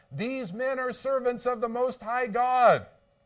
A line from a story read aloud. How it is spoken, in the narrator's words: that girl had been following them around for many days and shouting